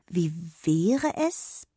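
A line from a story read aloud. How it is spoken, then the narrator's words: Hesitant. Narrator (German): begann sie zögernd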